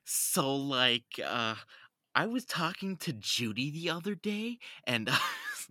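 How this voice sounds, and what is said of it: Put-on Valley Girl accent. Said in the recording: “Californian accent? ... There's the Valley Girl accent. ... Can you do it?”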